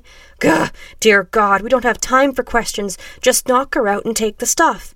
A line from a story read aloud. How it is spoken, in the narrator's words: shrieked the redhead